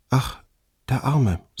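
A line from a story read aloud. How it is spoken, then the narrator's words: Sighing. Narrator (German): seufzte sie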